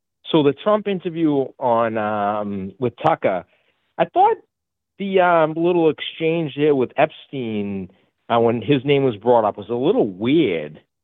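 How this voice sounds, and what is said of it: Heavy Boston accent. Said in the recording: “I got a heavy Boston accent”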